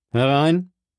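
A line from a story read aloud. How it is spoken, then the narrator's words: Calling out. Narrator (German): rief er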